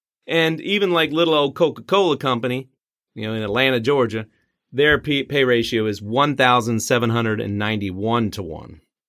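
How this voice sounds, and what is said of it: Attempted Georgia Southern accent. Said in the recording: “attempted Georgia accent there ... that's a good try”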